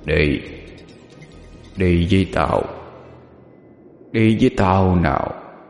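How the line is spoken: Deep hoarse demonic voice. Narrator (Vietnamese): Từ trong cổ họng quỷ dữ phát ra một âm thanh ồm ồm

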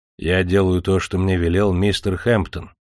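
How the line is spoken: Calm, polite. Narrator (Russian): спокойно и вежливо сказал Легейт

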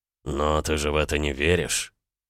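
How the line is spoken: Snorting. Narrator (Russian): Далма фыркнула

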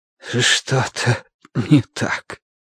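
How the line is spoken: Breathed out. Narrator (Russian): выдохнул Бадри

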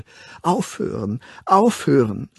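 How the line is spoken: Woman pleading. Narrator (German): flehte sie

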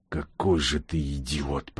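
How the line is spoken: Whispering. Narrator (Russian): прошептал бур

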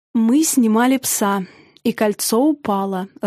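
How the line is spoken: Even voice. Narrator (Russian): ровным голосом проговорил Южин

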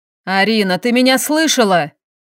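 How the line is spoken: Barked. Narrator (Russian): рявкнул Максим

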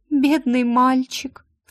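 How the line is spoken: Sobbing, muffled behind door. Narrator (Russian): всхлипнула Моник за дверью

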